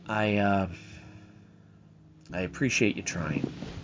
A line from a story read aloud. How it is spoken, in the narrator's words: the general quietly said